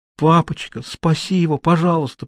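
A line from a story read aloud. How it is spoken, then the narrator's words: Whisper. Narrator (Russian): прошептал Хьюго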